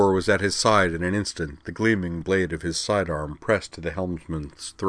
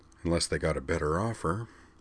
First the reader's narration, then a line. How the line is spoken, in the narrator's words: muttered Helmsman Jathan under his breath